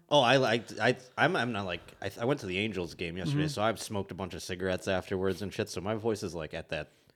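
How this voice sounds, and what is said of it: Smoky, rough low voice. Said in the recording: “You got the smoky register. Voice.”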